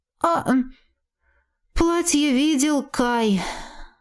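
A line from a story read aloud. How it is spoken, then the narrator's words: Sighing complaint. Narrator (Russian): вздохнув, пожаловалась сестра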